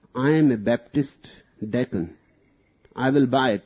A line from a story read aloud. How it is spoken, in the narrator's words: replied the other